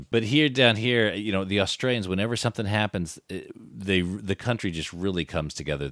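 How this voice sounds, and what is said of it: Californian American accent. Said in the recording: “I was originally from the States ... yeah, I can tell that ... I still got the California accent, dude”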